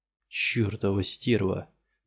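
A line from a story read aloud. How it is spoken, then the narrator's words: Strained, frustrated muttering. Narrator (Russian): бормотал он, безрезультатно борясь с узлами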